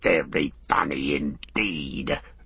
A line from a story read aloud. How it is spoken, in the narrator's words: Gorbag spat